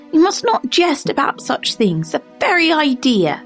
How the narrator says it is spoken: cried

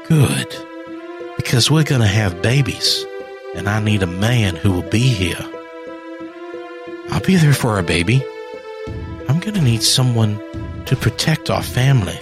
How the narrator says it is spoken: she said

